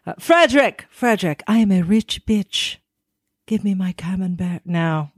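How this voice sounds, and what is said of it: Pretentious rich lady voice. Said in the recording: “I sound more like some pretentious rich lady who can't cut her camembert.”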